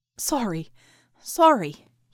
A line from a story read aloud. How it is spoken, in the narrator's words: he panted